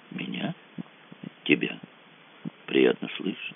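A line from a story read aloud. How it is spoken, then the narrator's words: Quiet voice. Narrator (Russian): сказала Ольга тихо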